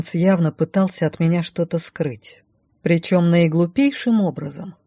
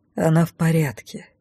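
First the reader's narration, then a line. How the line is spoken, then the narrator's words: Soft reply. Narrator (Russian): мягко ответил он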